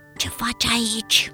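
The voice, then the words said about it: Whispered question. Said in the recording (Romanian): “șoptit”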